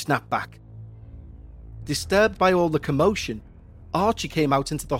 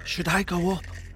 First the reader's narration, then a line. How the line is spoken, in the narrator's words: I whispered to Emily